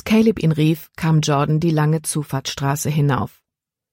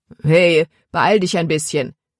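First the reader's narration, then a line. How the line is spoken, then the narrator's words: Called out. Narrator (German): rief Caleb ihm zu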